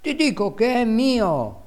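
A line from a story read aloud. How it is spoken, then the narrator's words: Small child exclaiming. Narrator (Italian): esclamava agitando le gambette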